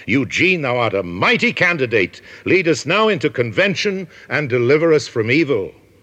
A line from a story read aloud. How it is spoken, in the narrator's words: the dissenters rose and shouted